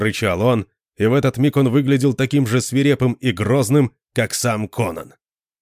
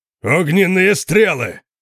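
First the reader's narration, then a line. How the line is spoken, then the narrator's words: Thunderous roar. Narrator (Russian): проревел Конан столь же громко, как сам дракон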